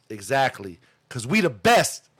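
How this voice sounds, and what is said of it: DJ Khaled impression. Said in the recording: “in my DJ Khaled voice.”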